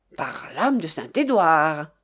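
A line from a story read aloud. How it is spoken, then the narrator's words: Exclaiming. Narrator (French): s'écria-t-il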